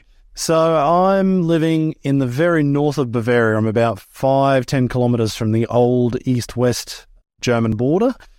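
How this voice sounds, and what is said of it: Australian accent. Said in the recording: “his accent sounds like he's Australian, is that correct? ... Absolutely, yeah. So no, grew up in Australia.”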